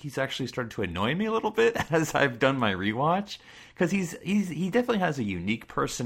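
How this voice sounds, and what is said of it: Usual voice. Nothing is said of it.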